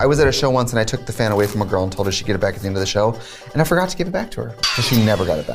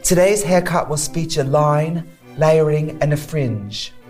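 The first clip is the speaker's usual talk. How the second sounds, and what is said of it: Put-on UK accent, instructor voice. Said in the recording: “accent ... a haircutting instructor from the UK”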